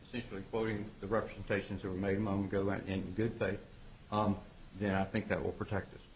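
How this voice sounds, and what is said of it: Southern American accent. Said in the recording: “my accent doesn't say it all ... I would like to hear that Atlanta accent”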